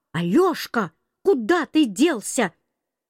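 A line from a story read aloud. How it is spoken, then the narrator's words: Grandmother shouting from behind. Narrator (Russian): Бабушка совсем сзади меня кричала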